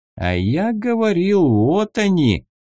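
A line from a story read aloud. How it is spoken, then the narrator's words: Drawling. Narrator (Russian): протянул другой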